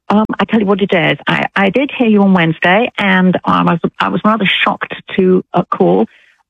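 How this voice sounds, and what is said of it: British English accent. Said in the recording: “you don't sound like you're from Alabama ... I'm British ... a British accent ... I love her accent ... English accent”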